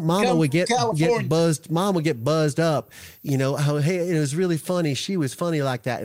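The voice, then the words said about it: Bad Southern accent impression. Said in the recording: “my bad Southern Alec Murdaugh accent”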